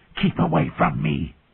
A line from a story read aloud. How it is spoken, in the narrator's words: Viserys hissed